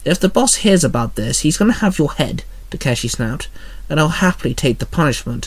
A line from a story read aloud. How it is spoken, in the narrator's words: William muttered